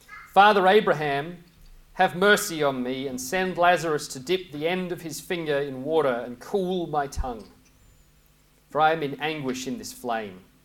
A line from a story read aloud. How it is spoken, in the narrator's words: he, that is Caiaphas, called out